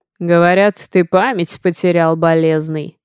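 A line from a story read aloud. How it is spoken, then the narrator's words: Deep bass voice from behind. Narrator (Russian): Пробасили нам в спину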